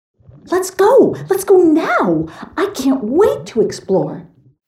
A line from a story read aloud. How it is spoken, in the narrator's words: squealed